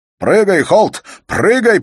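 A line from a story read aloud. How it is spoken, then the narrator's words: Shouting. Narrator (Russian): прокричал барон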